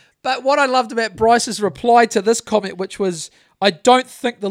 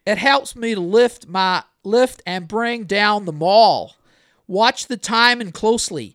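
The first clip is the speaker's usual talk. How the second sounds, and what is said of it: Weak put-on Southern drawl. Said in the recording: “I can't do a very good southern drawl”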